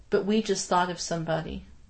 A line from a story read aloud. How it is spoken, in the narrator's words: she said quietly